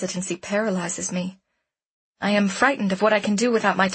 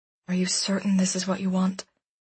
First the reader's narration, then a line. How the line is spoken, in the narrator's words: Devon says quietly